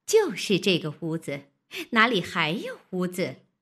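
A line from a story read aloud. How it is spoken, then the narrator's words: Laughing. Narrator (Chinese): 那媳妇笑道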